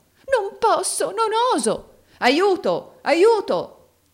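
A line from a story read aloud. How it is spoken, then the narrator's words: Exclaiming. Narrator (Italian): esclamò Rodolfo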